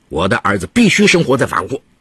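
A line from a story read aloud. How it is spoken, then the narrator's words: Angry shouting. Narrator (Chinese): 刘春丽愤怒地冲帕斯卡尔叫着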